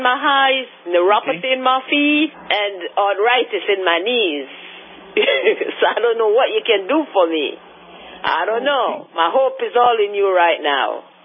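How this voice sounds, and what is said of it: Slight Caribbean island accent. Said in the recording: “you have a little bit of an island accent. Are you from one of the islands?”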